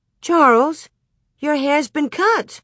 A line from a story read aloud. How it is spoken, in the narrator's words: Ma exclaimed